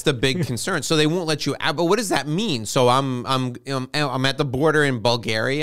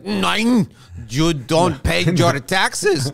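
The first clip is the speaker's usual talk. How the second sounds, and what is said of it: Put-on Bulgarian accent. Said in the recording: “that was a fantastic Bulgarian accent.”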